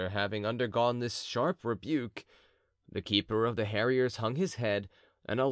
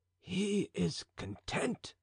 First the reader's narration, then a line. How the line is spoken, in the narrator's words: said the falconer in a low voice to the musketeer